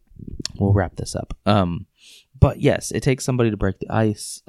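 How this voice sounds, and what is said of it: Hoarse, fading voice. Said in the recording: “Sorry, I'm losing my voice here.”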